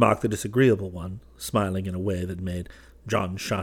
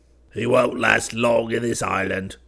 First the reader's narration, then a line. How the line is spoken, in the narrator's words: grunted the bad-tempered one